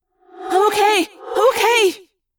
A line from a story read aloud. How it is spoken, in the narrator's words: she cried